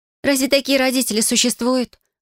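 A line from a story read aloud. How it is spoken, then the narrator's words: Exclamation. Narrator (Russian): воскликнула Айнрика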